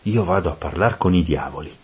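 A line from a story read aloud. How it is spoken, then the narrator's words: Whispered. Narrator (Italian): mi sussurrò Virgilio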